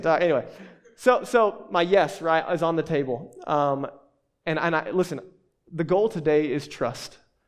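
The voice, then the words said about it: Southern American accent. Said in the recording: “I'm too southern for that ... they're going to hear my accent.”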